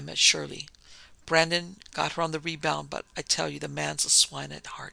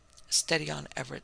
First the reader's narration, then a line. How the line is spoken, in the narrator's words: said the doctor